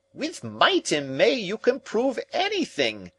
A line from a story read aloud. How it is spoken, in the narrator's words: cried Summerlee furiously